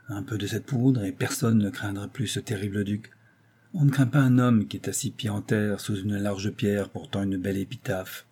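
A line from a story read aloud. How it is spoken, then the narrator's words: Muffled, low voice. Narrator (French): fit-il d'une voix sourde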